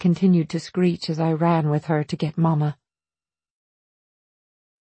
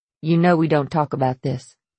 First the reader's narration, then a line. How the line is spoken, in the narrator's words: she said coldly